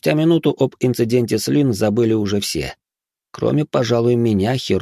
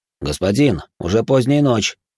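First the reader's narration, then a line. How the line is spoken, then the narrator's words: Plain. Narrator (Russian): сказал провожатый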